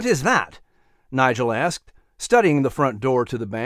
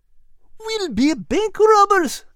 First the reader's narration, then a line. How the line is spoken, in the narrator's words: Al cried